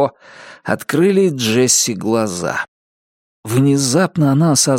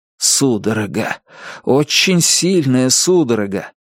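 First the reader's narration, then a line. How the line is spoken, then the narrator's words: Moaned. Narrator (Russian): Джесси застонала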